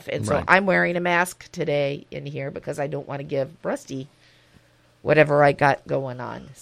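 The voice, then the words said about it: Voice slightly off from a cold. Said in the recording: “I have a cold today. ... My voice is a little bit off.”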